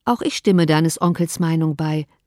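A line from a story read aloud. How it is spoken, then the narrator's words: Plain. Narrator (German): sagte Mrs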